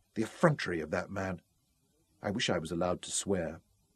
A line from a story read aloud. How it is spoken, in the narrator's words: she whispered